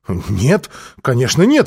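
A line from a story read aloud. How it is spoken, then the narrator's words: Agitated voice. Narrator (Russian): взволнованно произнесла Ольга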